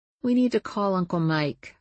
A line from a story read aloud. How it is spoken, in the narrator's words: I said in a small voice